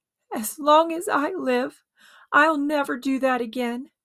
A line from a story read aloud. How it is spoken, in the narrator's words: promised himself between sobs